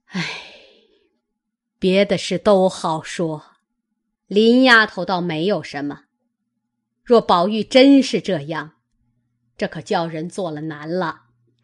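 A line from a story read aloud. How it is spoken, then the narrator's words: Sighing. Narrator (Chinese): 贾母叹道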